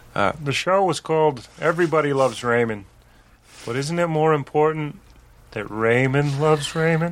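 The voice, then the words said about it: Kermit-the-Frog-like imitation of another's voice. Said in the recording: “It's almost Kermit the Frog sounding ... mine isn't that good ... my Ray Romano impression”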